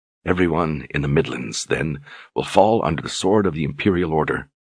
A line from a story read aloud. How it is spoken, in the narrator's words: Richard said in a soft voice